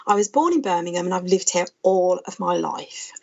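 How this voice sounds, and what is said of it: Birmingham (Brummie) English accent. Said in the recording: “a few people will probably recognise the accent. I'm a Brummie.”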